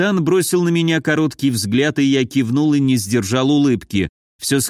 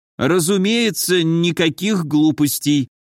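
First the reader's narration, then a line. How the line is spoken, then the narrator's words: Dejected agreement. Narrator (Russian): упавшим голосом согласился капитан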